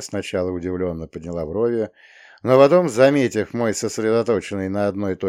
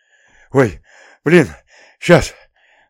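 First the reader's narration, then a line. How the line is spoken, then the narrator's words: Wheezing, breathless. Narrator (Russian): Вася с хрипом, выпуская и втягивая обратно воздух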